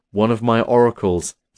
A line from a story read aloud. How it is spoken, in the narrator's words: said Zeus